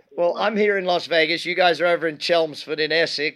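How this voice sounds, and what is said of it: Half Australian, half American accent. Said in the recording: “half Australian, half American accent”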